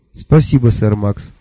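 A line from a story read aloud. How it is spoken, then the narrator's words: Plain. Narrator (Russian): ответила она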